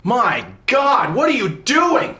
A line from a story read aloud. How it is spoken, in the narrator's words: A voice inside my head is yelling